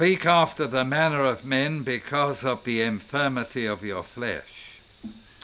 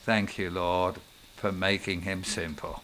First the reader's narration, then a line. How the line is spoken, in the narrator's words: I said quietly